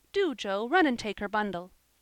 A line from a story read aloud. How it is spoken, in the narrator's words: she cried